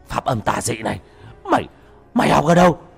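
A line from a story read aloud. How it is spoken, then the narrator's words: Frightened cry. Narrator (Vietnamese): Nó hoảng sợ kêu lên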